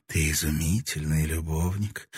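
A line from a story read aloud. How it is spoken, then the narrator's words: Whispered. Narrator (Russian): прошептала она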